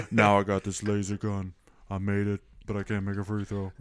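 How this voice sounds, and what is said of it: Imitates another person's voice. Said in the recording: “that's a pretty good Shaq impression. ... Yeah, that was good. ... It's really like, good. ... he's got that cadence.”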